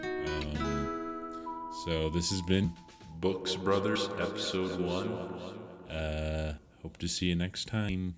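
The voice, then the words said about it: Unusually low-pitched voice. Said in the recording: “I also don't know why my voice is so low now”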